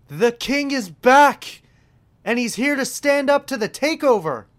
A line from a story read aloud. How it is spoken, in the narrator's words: Corey Graves shouts